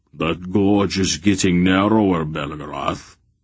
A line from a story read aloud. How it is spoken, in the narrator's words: Barak growled